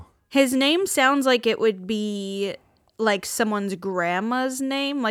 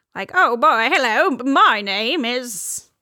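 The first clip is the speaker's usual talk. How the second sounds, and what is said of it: Put-on transatlantic accent, drifting Irish. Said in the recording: “Like someone with like a transatlantic accent would have this as like a woman's first name ... It gets Irish after a while. I'm not very good at that.”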